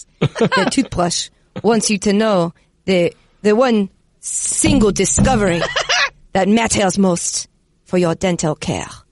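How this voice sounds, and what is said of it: Deliberately bad French accent. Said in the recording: “It's a really bad French accent ... I'm doing a really bad French accent ... On purpose ... His R's are like W's”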